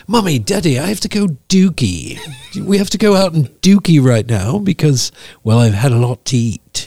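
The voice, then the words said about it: Dog character voice, British accent. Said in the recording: “I do voices ... I imitate him in a British accent.”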